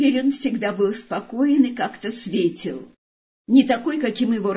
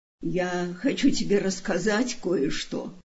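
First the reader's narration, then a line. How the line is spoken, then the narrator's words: Affectionate. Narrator (Russian): сказал ласково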